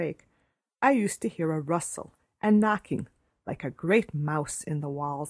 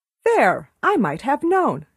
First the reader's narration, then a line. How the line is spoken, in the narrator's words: she exclaimed